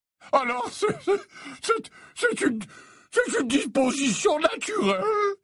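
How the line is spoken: Exclaimed. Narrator (French): s'exclama Slughorn

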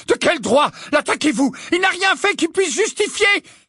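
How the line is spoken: Simultaneous screams. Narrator (French): Hermione, Parvati et Lavande poussèrent un hurlement simultané

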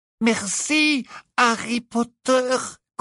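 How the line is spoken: Squeaky voice. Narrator (French): couina Dobby

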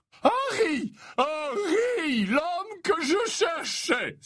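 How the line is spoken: Cordial exclamation. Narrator (French): s'exclama-t-il avec cordialité

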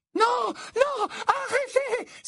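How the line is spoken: Loud echoing cry. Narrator (French): s'écria Mimi Geignarde, l'écho de sa voix résonnante avec force sur le carrelage

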